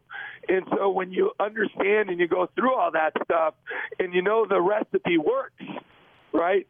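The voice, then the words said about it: Hoarse, strained worn-out voice. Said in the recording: “My voice is so shot. ... It's just yelling at our guys too much, I guess. But so bear with me a little bit.”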